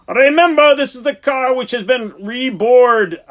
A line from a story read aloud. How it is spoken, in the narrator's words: bellowed above the din